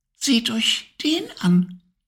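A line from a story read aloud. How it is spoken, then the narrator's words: Tiny whispering voice. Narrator (German): wisperte ein feines Stimmchen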